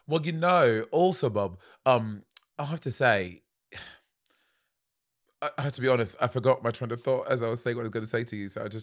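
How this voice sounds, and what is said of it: Put-on British accent. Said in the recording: “you're trying to speak in a British accent”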